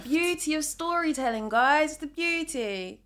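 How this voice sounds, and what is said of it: Suddenly puts on an accent. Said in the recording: “Where did this accent come from as well?”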